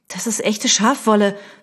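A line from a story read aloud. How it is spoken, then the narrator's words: Hissing. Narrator (German): fauchte sie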